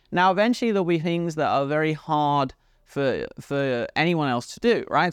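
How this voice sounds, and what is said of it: British accent. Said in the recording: “You come for my British accent”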